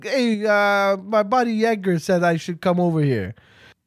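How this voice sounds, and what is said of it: Brooklyn Italian-American accent. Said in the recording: “Why are they all Italian? ... Why are they from Brooklyn? ... It's the one accent I'm good at.”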